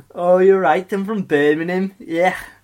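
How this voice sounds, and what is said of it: Failed Birmingham accent sounding Scouse. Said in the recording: “it's return of my Theseus voice ... Why did I choose this accent when I can't really do it? Scouse, if anything. ... That's Scouse, yeah. That's definitely not from Birmingham.”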